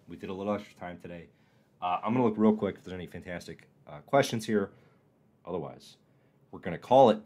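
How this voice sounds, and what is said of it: Strained, fading voice. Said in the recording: “I think I'm losing my voice. I think I'm losing it.”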